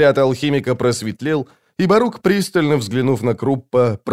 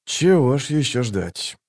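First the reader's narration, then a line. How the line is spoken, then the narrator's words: Muttered. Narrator (Russian): пробормотал он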